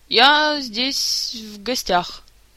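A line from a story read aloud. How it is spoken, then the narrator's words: Slow, hesitant, puzzled. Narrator (Russian): медленно подбирая слова, пояснил пассионарию, недоумевая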